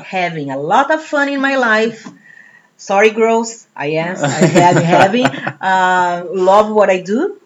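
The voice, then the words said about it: Speaks with a foreign accent. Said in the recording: “the accent is not going to change ... Oh, the accent's good. I like the accent. It's much more interesting than my accent.”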